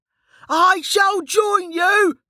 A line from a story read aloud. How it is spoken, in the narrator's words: yelled